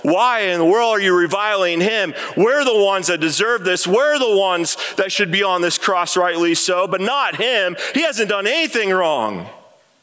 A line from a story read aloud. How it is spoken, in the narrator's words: He called out